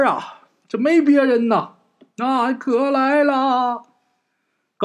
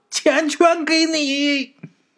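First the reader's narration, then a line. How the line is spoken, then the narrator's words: Shouted. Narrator (Chinese): 喊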